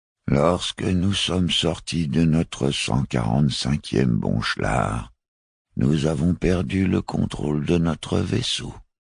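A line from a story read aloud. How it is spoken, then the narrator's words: Dull, gloomy voice. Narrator (French): reprit-il d'une voix morne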